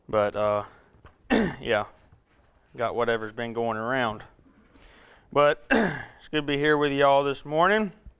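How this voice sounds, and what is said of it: Raspy, hoarse voice. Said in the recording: “you're going to have to put up with my voice today because it's raspy ... Hopefully the water will help a little bit”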